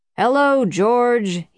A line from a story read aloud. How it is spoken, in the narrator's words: he boomed from within, not looking around